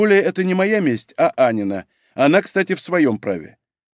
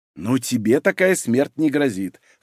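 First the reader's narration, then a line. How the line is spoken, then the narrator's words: Wry snort. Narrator (Russian): хмыкнул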